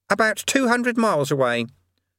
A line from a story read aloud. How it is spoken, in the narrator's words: said Eric earnestly